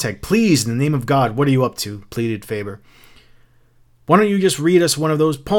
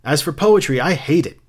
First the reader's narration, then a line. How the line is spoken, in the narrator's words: said Mrs